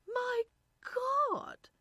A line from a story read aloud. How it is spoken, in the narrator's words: Irene cried